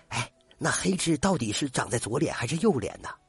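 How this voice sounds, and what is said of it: Quiet, hushed question. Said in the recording (Chinese): “小声的问”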